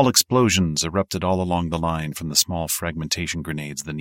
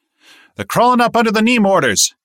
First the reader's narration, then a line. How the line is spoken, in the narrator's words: he yelled